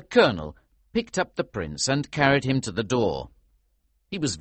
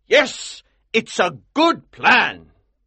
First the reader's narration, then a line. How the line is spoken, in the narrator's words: he cried